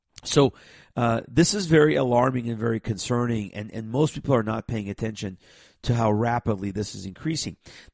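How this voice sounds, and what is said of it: Raspy voice. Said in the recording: “I'm fighting a cold, and so my voice is a little bit raspy today.”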